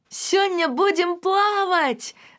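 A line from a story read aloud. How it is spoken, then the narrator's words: Shouting into ear. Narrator (Belarusian): закрычала я проста ёю вуха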